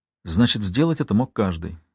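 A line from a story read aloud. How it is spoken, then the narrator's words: Sighed. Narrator (Russian): вздохнул я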